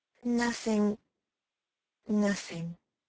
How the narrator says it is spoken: he sadly repeated

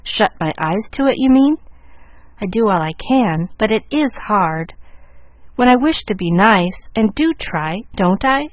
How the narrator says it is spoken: asked Molly

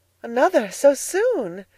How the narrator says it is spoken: she exclaimed, her eyes filled with delight

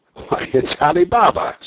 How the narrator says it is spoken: Scrooge exclaimed in ecstasy

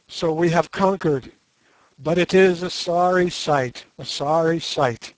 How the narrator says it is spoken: he sang out in a trembling, excited voice

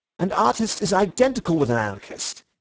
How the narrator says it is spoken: he cried

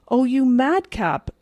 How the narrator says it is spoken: exclaimed the elder girl

